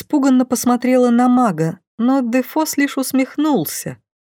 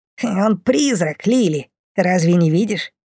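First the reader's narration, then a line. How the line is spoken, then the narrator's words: Snorting fly. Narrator (Russian): фыркнула муха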